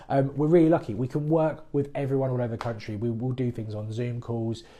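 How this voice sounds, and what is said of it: Usual voice. Nothing is said of it.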